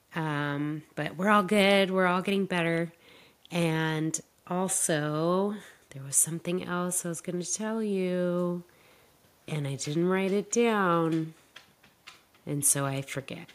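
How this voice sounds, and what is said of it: Sick, slightly off-sounding voice. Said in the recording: “I've been sick all week. And so my voice is a little funny today.”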